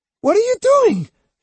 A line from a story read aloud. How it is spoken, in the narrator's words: she cried